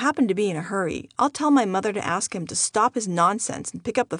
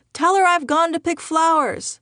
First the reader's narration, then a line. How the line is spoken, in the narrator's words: I often hear him yell in the background